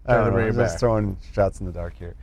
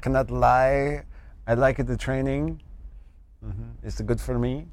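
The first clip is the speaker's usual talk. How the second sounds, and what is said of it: Wandering put-on accent turning Brazilian. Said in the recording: “Now I'm Brazilian. My accent moves. ... It went. ... It goes all over the place. ... You lost it.”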